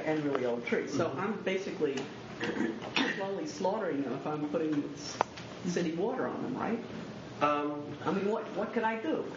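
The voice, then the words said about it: Kentucky accent. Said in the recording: “There's an accent for you, finally. ... Kentucky accent.”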